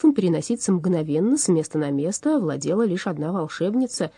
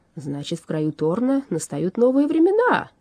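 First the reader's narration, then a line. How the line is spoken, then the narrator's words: Joyful announcement. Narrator (Russian): радостно возвестил Уорра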